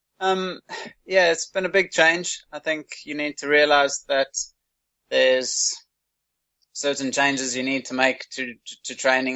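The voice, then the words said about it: South African accent. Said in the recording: “that's not an Irish accent. That's a South African accent.”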